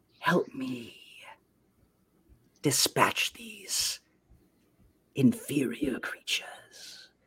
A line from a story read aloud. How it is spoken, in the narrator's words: he whispers in your ear in Infernal, he goes